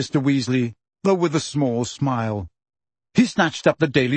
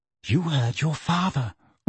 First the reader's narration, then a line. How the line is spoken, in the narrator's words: whispered Mrs